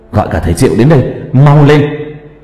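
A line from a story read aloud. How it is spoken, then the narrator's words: Loud shout. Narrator (Vietnamese): Cường hét lớn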